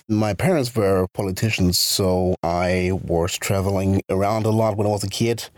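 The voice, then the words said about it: American accent. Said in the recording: “I'm able to speak either American accent, if you prefer that, or I can speak with a British accent. ... So I'm going to continue with American accent”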